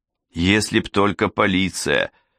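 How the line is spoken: Irritated curt remark. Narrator (Russian): раздраженно бросил Джала, не оборачиваясь

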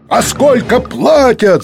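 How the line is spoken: Yelling. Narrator (Russian): заорал кто-то

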